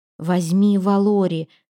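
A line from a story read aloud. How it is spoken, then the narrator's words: Tense voice. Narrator (Russian): ответила она напряженным голосом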